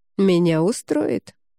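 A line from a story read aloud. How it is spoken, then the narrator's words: Calm, concealing joy. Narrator (Russian): вместо того, чтобы выдать свое счастье, лишь спокойно произнес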